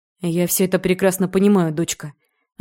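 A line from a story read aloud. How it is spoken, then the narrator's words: Sighing. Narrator (Russian): вздохнул отец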